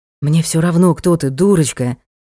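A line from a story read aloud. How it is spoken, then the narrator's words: Breathless exhale. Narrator (Russian): выдохнул он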